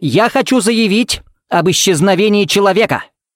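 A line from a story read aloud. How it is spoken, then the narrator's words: Barked. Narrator (Russian): рявкнул Смит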